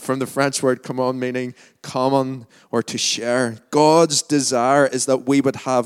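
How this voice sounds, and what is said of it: Lurgan Northern Irish accent. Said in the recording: “my Largan accent”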